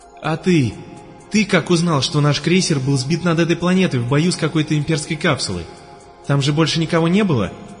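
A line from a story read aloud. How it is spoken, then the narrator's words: Agitated question. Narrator (Russian): взволнованно спрашивал парень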